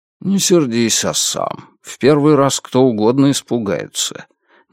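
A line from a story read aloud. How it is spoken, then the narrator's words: Quiet. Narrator (Russian): Негромко произнес мистер Талергут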